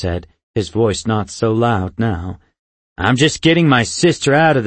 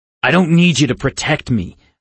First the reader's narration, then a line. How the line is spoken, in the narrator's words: I snarled